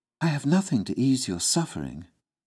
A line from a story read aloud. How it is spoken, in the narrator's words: she softly told him